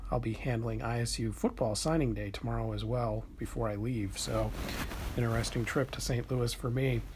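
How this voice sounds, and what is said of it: Quiet, muted speaking voice. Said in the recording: “my voice is a little muted, that's why. I'm trying not to get in trouble with the front desk or any guests or anything like that. So I'm in quiet storm voice mode right now.”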